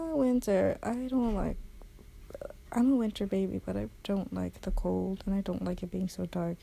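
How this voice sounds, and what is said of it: Crackly, rough just-woke-up voice. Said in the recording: “my voice sounds all crackly and weird. I literally just woke up.”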